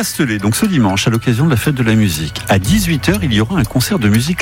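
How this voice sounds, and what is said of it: Usual voice. Nothing is said of it.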